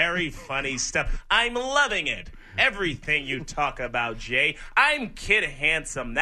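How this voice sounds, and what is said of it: Usual voice. Nothing is said of it.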